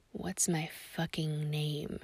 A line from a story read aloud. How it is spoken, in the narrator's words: snarls again